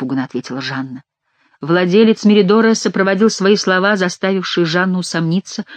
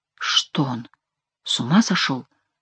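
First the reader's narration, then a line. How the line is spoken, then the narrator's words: Quiet surprised question. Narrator (Russian): тихо спросил Сен-Люк у своей жены с удивлением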